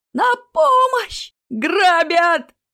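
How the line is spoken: Panicked yell. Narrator (Russian): заорал он

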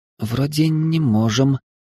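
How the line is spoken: Uncertain. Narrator (Russian): неуверенно ответила Машка

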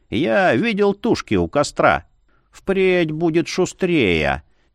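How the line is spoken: Pronouncing solemnly. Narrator (Russian): изрекла воеводица

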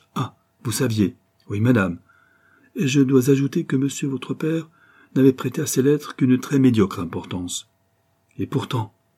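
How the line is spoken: Exclaiming. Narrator (French): s'écria Jacqueline

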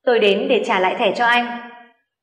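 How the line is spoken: Cold reply, woman. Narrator (Vietnamese): Hạ Tử Quyên lạnh lùng đáp lại

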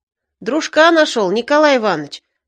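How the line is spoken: Joyful. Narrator (Russian): радостно сказал Стародомский

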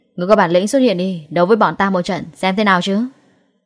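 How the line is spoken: Loud. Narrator (Vietnamese): Lâm Hiểu Phong lớn tiếng nói tiếp

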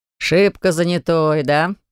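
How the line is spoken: Smirking snort. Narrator (Russian): хмыкнул Виталик

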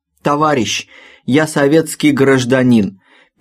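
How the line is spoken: Wheezing to whistling. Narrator (Russian): переходя с хрипа на свист, доложил он

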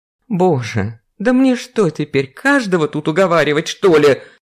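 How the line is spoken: Exclaiming. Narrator (Russian): воскликнула Вера

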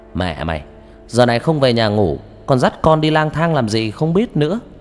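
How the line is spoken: Loud scolding. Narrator (Vietnamese): An lớn tiếng

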